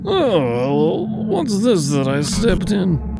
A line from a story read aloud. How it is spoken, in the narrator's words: Rivas groaned